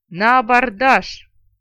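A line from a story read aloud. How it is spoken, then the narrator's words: Displeased full-throated roar. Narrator (Russian): Несколько недовольный этим обстоятельством, во всю глотку проревел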